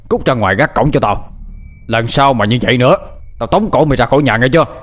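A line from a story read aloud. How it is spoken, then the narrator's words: Shouting. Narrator (Vietnamese): quát lên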